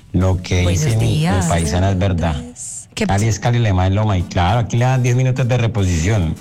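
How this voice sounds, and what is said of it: Lovely regional accent. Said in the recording (Spanish): “acento tan lindo, mi amor”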